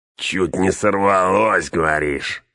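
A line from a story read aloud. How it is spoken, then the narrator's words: Short chuckle. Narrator (Russian): хохотнул горбак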